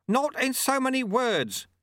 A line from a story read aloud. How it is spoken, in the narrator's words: shouted Lutse